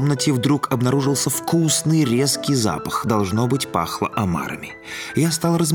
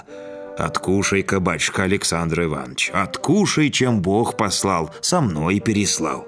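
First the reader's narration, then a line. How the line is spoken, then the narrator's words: Sweet deep bass. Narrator (Russian): сладко пробасила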